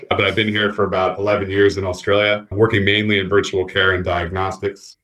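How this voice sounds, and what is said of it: Thick foreign accent. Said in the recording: “my accent is pretty thick”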